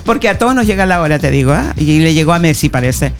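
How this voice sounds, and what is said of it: Chilean Spanish accent. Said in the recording (Spanish): “me encanta tu acento chileno”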